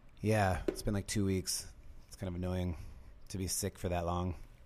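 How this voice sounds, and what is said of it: Slightly gravelly, hoarse voice. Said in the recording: “Your voice is still a little gravelly.”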